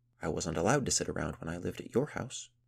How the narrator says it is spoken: muttered Yadith

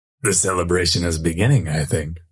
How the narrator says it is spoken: Leaning close, he chuckled and said

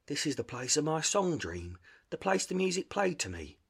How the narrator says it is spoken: whispered the rat, as if in a trance

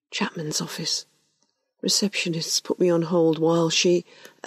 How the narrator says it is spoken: he whispered to me

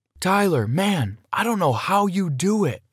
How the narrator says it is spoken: my buddy Brendan yelled over the music

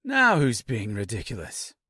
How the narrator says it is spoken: muttered Fink

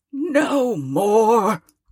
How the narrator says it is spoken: cried Scrooge

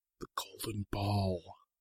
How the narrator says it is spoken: I whisper

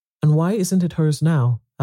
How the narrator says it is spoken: asked Irene

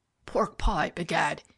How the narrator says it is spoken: he exclaimed, with a crestfallen air

